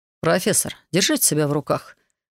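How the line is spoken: Curt, menacingly calm. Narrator (Russian): отрезал Кайрос, его голос прозвучал угрожающе спокойно

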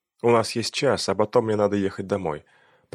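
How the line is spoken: Murmured against lips. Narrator (Russian): пробормотала она, не отрываясь от его губ

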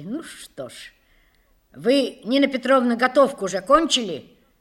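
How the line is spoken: Rude interruption. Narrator (Russian): грубо перебила ее тетка

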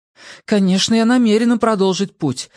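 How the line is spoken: Exclaiming. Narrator (Russian): воскликнула Хиллари

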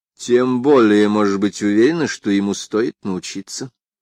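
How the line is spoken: Plain. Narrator (Russian): сказала Нэнси

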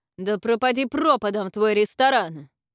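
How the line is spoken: Angry shout. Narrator (Russian): Разразившись гневной тирадой, он крикнул

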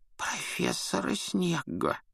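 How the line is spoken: Whispered. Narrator (Russian): Невилл шепотом произнес

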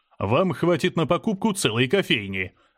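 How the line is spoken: Laughing. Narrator (Russian): рассмеялся менеджер

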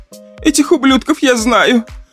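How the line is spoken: Tearful woman. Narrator (Russian): продолжала блондинка сквозь слезы

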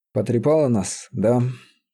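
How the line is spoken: Sad wry chuckle. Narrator (Russian): Грустно усмехнувшись

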